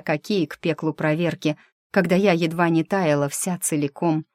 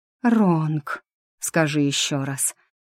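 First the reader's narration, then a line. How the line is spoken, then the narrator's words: Pleading breathy mage. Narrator (Russian): моля выдохнул маг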